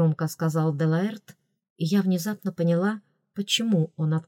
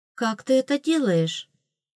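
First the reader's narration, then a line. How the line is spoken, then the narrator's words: Admiring sigh. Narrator (Russian): Против воли вырвался у меня восхищенный вздох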